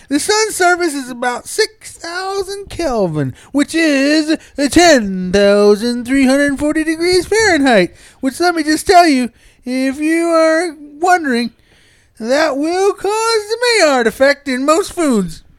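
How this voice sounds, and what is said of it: Reading aloud in a funny voice. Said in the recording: “reads the internet in a funny voice.”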